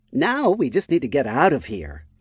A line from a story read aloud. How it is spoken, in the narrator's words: Lyphra said in a confident tone